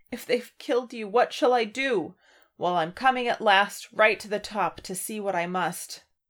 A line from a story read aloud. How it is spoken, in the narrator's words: He cried, half sobbing